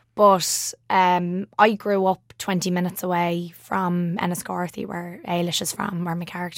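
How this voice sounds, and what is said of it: Strong Dublin Irish accent. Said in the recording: “I have quite a strong Dublin accent.”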